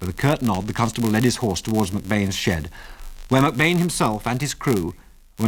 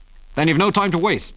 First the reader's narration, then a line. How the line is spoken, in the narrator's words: said Delaney harshly